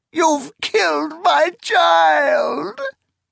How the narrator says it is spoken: she wailed

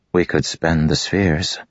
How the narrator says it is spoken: Cal said hesitantly

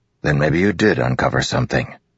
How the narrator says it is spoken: Dalinar said with a grunt

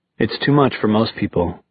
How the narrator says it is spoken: he said

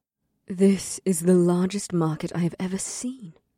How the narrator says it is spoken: Nylame said in a quiet voice

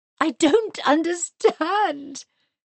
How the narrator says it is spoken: cried Mary

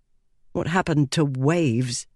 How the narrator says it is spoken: muttered Lila

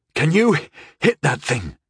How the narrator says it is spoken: I asked breathlessly

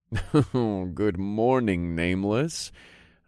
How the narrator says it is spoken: chuckled

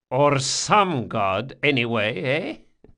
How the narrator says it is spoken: Barsavi chuckled

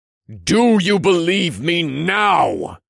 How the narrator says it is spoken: I asked in a thunderous, echoing voice

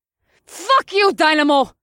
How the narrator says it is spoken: Killer Kitten shrieked from her perch on the steeple

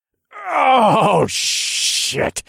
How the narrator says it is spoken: I growled

